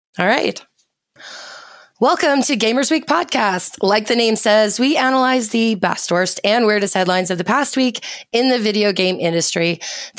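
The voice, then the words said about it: Hoarse, wrecked voice. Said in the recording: “my voice is still pretty wrecked”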